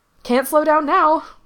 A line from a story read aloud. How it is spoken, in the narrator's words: Gerard yelled back